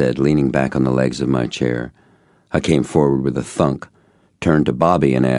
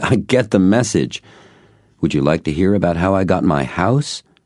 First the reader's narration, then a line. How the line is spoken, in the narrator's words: Kazuko asked